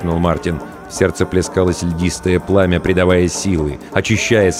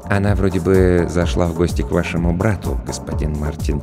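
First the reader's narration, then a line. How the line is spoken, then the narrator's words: Quiet reply. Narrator (Russian): тихо ответил Роджер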